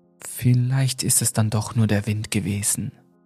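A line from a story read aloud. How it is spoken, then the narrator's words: Uncertain murmur. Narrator (German): murmelte unsicher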